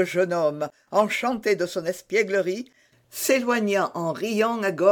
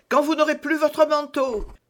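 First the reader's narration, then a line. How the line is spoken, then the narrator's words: Shouted. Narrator (French): lui cria celui-ci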